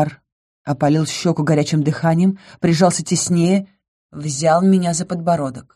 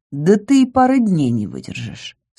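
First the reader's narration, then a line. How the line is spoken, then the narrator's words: Calm objection, male. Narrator (Russian): спокойно возразил он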